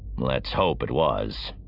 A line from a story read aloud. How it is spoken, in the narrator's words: Rituvali said grimly